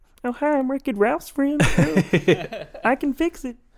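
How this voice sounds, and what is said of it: Imitates another person's voice. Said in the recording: “what's his name, Jack McBear? ... That's pretty good”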